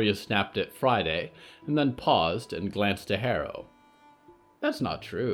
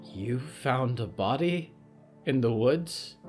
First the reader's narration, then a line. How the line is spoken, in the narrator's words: Harrow whispered